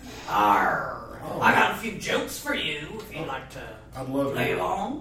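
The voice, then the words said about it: Pirate character voice. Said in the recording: “Talk Like a Pirate”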